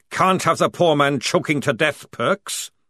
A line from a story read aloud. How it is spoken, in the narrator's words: Jackram's voice roared